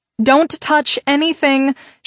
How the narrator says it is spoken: she called out to him

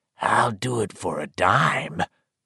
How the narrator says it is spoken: the hobo croaked

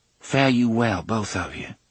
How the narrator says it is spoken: she said softly

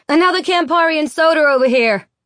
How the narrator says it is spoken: Terran laughs, sticks her arm up in the air and yells

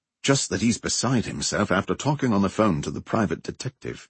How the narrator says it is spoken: Chad said, lowering his voice as though Oliver was nearby

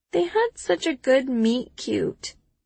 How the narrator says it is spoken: I croak

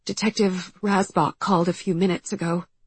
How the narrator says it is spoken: she says, her voice shaky

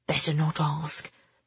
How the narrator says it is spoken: Ben whispered back

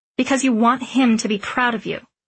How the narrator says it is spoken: said sharply

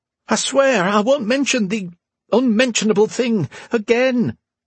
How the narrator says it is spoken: Archer pleaded

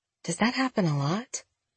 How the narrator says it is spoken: Jenna asked in a low voice

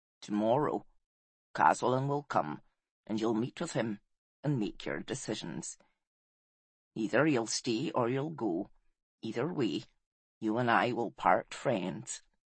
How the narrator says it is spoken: said Oracle gravely

